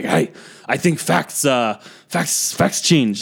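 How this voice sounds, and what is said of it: Put-on stereotyped accent for Miyagi. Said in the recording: “racist-ass accent”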